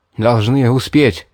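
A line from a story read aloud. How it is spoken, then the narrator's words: Breathless exhale. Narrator (Russian): выдохнул я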